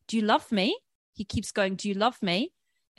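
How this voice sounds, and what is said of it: Put-on South African accent. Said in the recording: “apologies for all my accents as well, let me try South African.”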